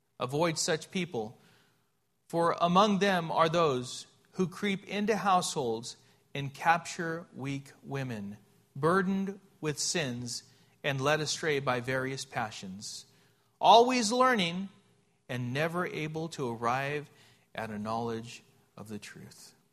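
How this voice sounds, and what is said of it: Slow, deliberate reading. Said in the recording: “read that slowly.”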